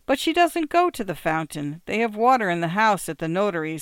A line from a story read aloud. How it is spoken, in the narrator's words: said Boccella mournfully